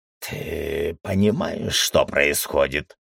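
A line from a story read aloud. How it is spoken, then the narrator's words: Hoarse. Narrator (Russian): хрипло заговорил Пердик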